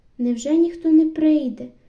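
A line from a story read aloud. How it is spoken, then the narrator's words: Repeated shouting. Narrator (Ukrainian): закричали знову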